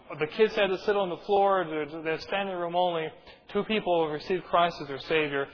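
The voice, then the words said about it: Canadian accent, fast speech. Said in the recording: “I am Canadian, and I've been accused of speaking with some Canadianese from time to time. Sometimes that accent creeps through, and also, I speak fast... I rattle off a million miles a minute”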